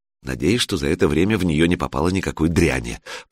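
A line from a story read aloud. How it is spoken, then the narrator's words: Muttered in Russian. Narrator (Russian): по-русски пробормотала Алена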